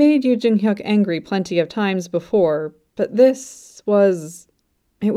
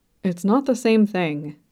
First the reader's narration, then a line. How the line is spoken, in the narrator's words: he muttered